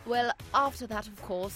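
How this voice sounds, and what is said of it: Put-on posh old man's voice. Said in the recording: “Is he especially doing a posh voice? ... I am doing a posh voice. ... You sound like an old man doing a posh voice.”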